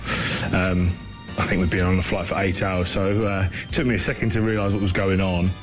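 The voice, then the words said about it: British accent. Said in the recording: “I love a British accent. ... the way they say holiday instead of vacation.”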